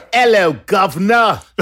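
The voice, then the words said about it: Bad put-on British accent. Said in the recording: “Worst ever. ... I don't think that's the accent we're all jealous of ... we're trying to keep it, you know, BBC English.”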